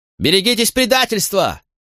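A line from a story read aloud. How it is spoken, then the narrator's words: Shouting. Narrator (Russian): закричал он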